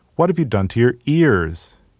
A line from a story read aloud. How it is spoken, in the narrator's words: she cried